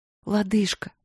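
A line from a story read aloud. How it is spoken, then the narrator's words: Guilty whisper. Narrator (Russian): виновато прошептала Василина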